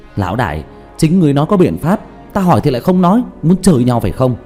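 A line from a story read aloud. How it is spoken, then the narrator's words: Exasperated, nearly shouting. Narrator (Vietnamese): Diệp Thiếu Dương thiếu chút nữa thì tức khí la lên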